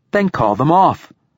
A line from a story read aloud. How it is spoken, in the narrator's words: snaps the girl